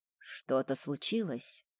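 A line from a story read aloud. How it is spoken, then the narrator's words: Quiet question. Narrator (Russian): тихо спрашивает Андрей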